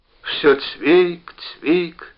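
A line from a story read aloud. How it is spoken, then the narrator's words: Sighing speech. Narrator (Russian): еще раз вздохнув, сказал он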